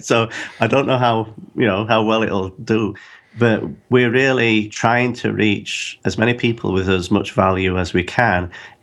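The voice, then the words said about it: Strong accent. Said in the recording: “Not everybody can understand my accent.”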